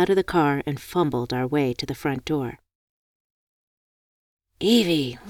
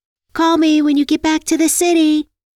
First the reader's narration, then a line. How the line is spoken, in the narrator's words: I yelled